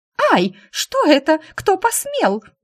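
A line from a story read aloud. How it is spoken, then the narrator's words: Shriek. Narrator (Russian): Завизжала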